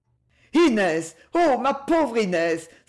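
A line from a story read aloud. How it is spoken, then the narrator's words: Shocked cry. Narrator (French): s'écria Jacques, devenu livide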